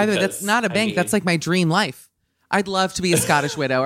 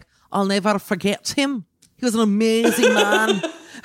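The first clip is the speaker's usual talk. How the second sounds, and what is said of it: Put-on Scottish accent. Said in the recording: “That is an excellent Scottish accent, by the way.”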